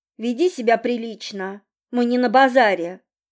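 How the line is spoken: Stern. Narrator (Russian): строго сказала

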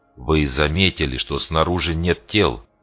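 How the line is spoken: Calm question. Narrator (Russian): Удивительно спокойно осведомился Вандемейр

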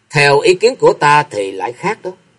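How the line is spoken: Young woman laughing louder. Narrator (Vietnamese): Tử y cô nương cười to hơn

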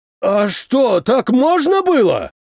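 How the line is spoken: Unrestrained shout. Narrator (Russian): Не сдержавшись, закричал

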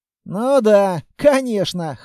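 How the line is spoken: Skeptical snort. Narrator (Russian): хмыкнул он

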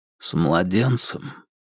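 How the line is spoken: Nearly silent whisper. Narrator (Russian): почти беззвучно прошептал Холмс

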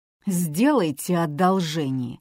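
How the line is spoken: Furious hiss. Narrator (Russian): разъяренно прошипел он

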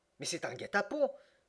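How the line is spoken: Tipsy excited exclamation. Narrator (French): s'écria Passepartout qui s'animait alors sous l'influence du brandy

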